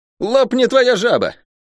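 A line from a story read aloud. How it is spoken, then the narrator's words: Loud bark. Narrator (Russian): гаркнул Лук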